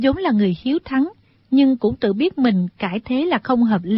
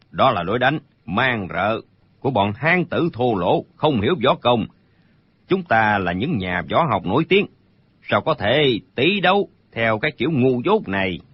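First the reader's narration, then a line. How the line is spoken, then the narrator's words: Stern, annoyed voice. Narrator (Vietnamese): Đinh Bất Tứ bị mụ già nói trúng tâm sự, hết sức khó chịu, bèn nghiêm giọng nói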